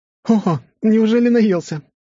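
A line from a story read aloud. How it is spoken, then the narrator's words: Exclaiming. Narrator (Russian): воскликнула Лиза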